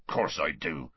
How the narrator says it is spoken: Hagrid grunted

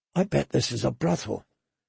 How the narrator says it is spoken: she whispered to Gendry

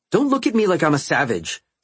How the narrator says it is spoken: she snapped

